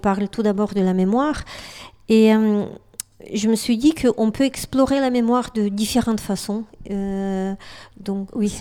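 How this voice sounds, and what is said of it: Eastern European accent in French. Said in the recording (French): “d'après mon accent, je ne suis pas originaire de... Je suis pas d'origine française... Je viens de l'Europe de l'Est”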